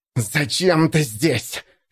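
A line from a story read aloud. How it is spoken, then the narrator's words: Hissing. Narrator (Russian): шипел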